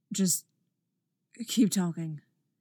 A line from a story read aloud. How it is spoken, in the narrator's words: he said softly